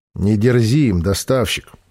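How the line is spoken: Calm. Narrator (Russian): спокойно сказал Разин

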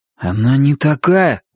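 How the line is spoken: Strained. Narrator (Russian): выдавил Кориолан

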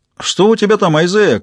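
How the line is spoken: Shout into tunnel. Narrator (Russian): крикнул в туннель Джеральд

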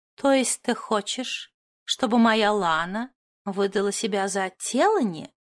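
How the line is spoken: Completely calm. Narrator (Russian): уточнила Моти совершенно спокойно

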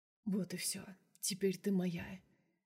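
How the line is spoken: Whisper in ear. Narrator (Russian): шепнул мне на ухо

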